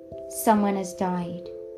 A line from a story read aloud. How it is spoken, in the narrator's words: said, his voice shaking